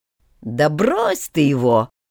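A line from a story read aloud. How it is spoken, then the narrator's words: Nasty voice. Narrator (Russian): противным голосом одного из братьев Райфов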